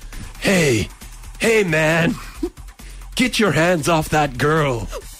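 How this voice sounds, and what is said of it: Terrible Keanu Reeves impression. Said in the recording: “terrible impression ... Keanu Reeves School of Acting ... I'm talking about Keanu Reeves.”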